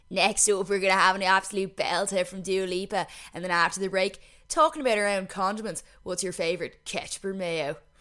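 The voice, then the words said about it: Mocking put-on accent. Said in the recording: “I don't know why I'm mocking that accent since I actually talk like that.”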